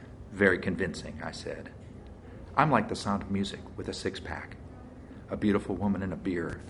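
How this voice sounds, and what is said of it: Usual voice. Nothing is said of it.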